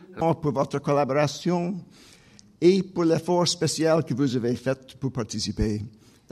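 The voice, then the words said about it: French with a Vancouver accent. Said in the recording (French): “French spoken with a prop... le français avec l'accent de Vancouver”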